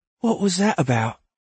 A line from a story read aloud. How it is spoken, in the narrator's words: Alder said quietly